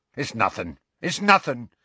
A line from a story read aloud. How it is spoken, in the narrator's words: said Hagrid hastily